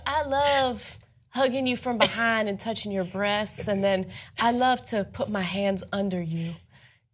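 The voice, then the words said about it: Imitates another person's accent. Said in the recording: “The accent. ... There it is.”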